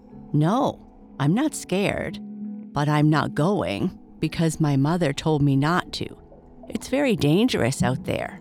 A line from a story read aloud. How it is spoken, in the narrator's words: said Finbo calmly